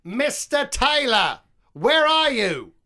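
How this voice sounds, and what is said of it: Put-on accent. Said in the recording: “Seriously, in the accent? ... Yeah, I did an accent to it as well.”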